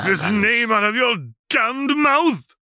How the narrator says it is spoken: James roared

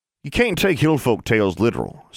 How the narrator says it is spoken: said Burton

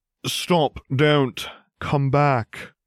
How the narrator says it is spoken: called Snape in a monotone that could be used to measure other monotones

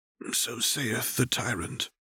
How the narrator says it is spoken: Singed murmured softly

